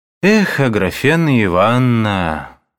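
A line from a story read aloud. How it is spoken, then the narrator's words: Lazy, sighing. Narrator (Russian): повторил он лениво, вздыхая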